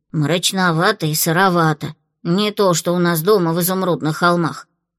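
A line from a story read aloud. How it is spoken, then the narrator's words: Grumbling. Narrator (Russian): проворчала Флу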